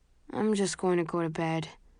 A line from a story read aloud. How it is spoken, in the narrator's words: he mumbles